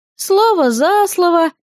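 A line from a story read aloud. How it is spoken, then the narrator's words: Sighed. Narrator (Russian): вздохнула я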